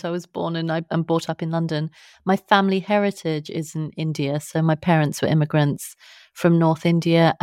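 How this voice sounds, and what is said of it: British accent. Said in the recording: “So I am British. You can probably tell by my accent.”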